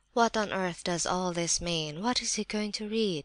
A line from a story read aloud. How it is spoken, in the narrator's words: muttered several voices